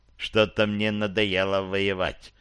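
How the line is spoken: Muttered. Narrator (Russian): пробормотал Гэндальф

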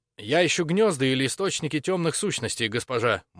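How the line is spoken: Throat cleared, hurried. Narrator (Russian): Максимилиан прочистил горло, торопливо ответил

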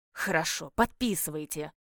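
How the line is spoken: Old man's gruff growl. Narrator (Russian): рыкнул старец

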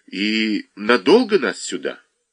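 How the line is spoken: Timid question. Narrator (Russian): Наташа эдак робко спрашивает

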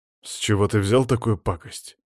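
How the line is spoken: Grumbled reply. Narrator (Russian): буркнул в ответ

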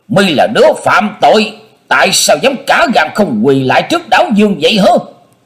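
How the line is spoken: Loud scolding shout. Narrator (Vietnamese): Mình đấu trợn trừng, to tiếng quát nạt

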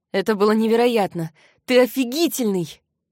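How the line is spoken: Breathless exhale. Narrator (Russian): выдохнула Зора

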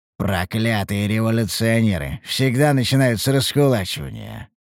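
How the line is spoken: Grumbling. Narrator (Russian): пробурчал я

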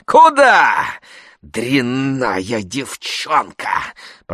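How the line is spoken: Hissed. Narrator (Russian): прошипел он

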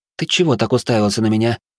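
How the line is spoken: Blunt question with a snort. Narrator (Russian): Хмыкнув, я прямо спросил

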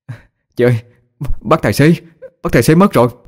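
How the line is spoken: Breathless speech. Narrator (Vietnamese): Sau vài giây thở hổn hển lấy lại sức, Phi liền nói

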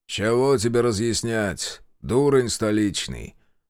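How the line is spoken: Lazy question. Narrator (Russian): лениво спросил Климов

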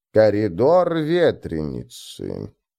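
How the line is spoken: Drawn-out hopeless sadness. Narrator (Russian): протянула Фрок с какой-то безнадежной печалью

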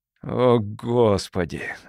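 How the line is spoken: Breathless gut-wrenched exhale. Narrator (Russian): выдохнул Моллет, чувствуя, как ему сводит внутренности

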